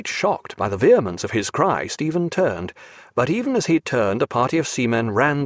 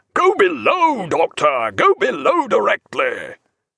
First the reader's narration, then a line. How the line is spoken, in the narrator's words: Captain Aubrey had no such inhibitions, and instantly roared out